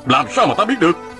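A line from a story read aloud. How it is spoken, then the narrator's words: Angry retort. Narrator (Vietnamese): Sa Thiên Quản giận dữ hỏi lại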